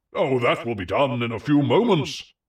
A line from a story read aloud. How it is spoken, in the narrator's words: cried Atlas